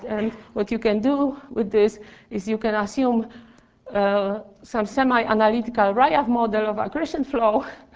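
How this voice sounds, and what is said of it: Strained, hoarse, fading voice. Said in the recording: “I'm losing my voice now.”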